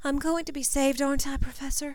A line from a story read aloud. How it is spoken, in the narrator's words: whimpered